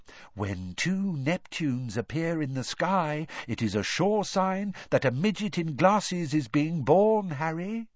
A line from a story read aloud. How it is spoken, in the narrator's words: said Ron, imitating Professor Trelawney's mystical whisper